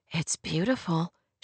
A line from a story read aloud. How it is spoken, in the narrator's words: said softly